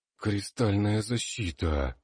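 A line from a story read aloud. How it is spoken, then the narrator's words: Astonished breathless exhale. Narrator (Russian): выдохнул маг пораженно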